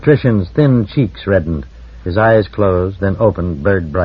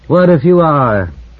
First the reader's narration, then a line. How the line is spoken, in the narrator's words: said Barr bitterly